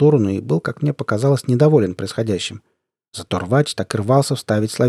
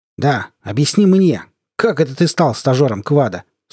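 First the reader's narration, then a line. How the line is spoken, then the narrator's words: Sharp voice. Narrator (Russian): спросил он резким голосом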